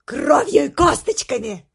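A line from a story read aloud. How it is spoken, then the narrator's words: Joyful bellow. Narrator (Russian): радостно гаркнула другая крыса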